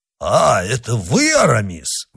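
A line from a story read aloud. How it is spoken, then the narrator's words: Exclaimed. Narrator (Russian): воскликнул Портос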